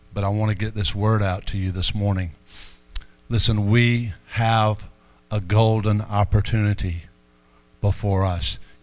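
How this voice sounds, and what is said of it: Quiet, strained, worn-out voice. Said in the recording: “why are you talking so low? ... I've stripped the gear in my voice”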